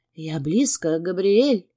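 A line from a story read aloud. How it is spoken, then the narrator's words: Contented moan. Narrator (Russian): Он довольно застонал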